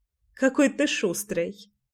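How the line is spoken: Chuckling. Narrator (Russian): хохотнула

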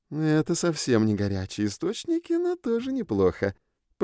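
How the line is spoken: Purring. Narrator (Russian): промурлыкала она

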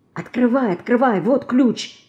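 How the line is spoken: Whispering. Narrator (Russian): зашептала она

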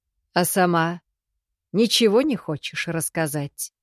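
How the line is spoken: Scoffing. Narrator (Russian): Хмыкнул

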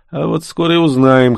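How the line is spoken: Snorting. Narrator (Russian): хмыкнул он

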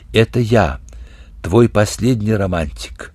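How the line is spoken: Mysterious, sad, on phone. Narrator (Russian): звонил Вере и говорил в трубку таинственно и печально

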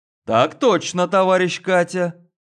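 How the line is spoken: Cheerful, brisk. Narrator (Russian): Бодро ответил я

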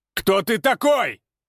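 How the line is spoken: Shout trying to sound confident. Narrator (Russian): прокричал он, стараясь, чтобы голос звучал уверенно

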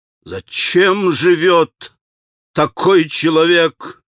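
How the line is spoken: Muffled furious growl. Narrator (Russian): глухо прорычал Дмитрий Федорович, почти уже в исступлении от гнева

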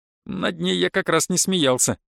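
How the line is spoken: Giggling. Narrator (Russian): хихикнул Ариант

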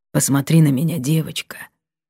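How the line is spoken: Hoarse request. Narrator (Russian): попросил сиятельный хрипло

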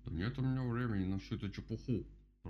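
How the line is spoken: Grumbled. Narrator (Russian): пробурчал Кастер

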